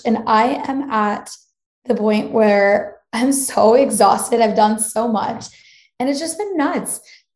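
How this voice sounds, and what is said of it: Raspy, hoarse voice. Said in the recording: “my voice is completely raspy”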